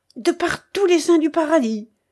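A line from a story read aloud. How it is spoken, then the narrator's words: Exclaiming. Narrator (French): s'écria de Bracy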